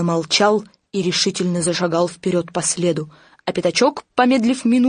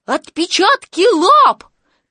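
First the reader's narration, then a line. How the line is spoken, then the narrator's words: Excited squeal. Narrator (Russian): Пятачок даже взвизгнул от волнения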